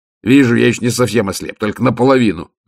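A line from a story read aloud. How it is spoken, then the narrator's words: Snapping retort. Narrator (Russian): огрызнулся Ваймс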